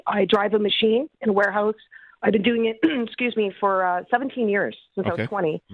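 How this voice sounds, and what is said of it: Slightly raspy voice. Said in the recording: “I'm sorry if I sound a little raspy.”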